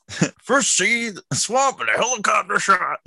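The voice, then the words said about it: Imitates a Muppet character's voice. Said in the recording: “My impression of Dr. Teeth.”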